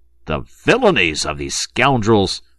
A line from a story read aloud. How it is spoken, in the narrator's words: thundered General Feraud